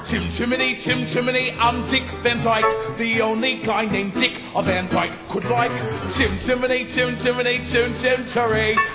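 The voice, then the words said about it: Phony put-on accent, sung. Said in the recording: “my accent's as phony can buy”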